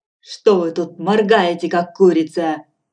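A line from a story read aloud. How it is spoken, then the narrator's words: Angry question. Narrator (Russian): сердито спросил ее Филин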